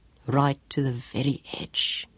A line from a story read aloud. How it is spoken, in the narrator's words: whispered hoarsely